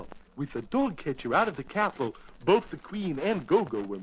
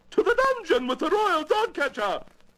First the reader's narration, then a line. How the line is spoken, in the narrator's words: screamed the queen